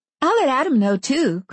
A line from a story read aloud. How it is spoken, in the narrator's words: Christy said brightly